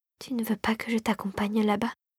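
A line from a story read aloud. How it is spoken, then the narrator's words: Fairy whispering. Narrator (French): chuchota la fée dragée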